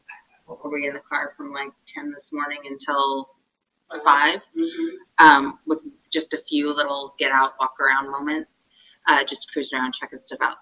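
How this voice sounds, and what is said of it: Croaky, tired voice. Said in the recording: “you can probably hear in my voice, I'm a little croaky and we're tired.”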